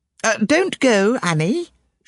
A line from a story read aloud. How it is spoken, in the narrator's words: she cried